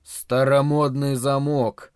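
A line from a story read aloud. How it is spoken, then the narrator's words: Grumbling. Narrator (Russian): проворчал Харрисон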